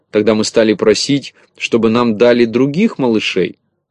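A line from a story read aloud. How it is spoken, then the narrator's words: Fast speech. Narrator (Russian): снова подхватила Кисонька и заговорила быстро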